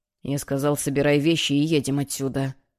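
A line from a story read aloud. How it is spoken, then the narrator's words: Father's menacing restrained whisper. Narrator (Russian): угрожающим шепотом проговорил отец, явно пытаясь держать злость под контролем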